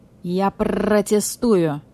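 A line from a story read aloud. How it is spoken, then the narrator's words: Growled. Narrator (Russian): зарычал прокурор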